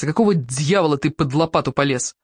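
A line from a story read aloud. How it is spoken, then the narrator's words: Cursing through teeth. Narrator (Russian): Чертыхаясь сквозь зубы, Борис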